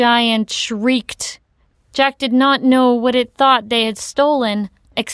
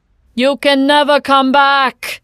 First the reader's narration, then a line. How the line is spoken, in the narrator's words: the giant screamed